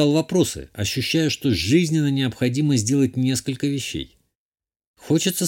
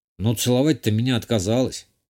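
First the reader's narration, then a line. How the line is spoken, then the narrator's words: Wry snort. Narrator (Russian): Хмыкнул я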